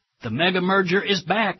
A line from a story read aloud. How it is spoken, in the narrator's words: exclaimed the New York Times